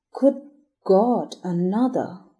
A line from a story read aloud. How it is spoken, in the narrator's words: groaned Brayton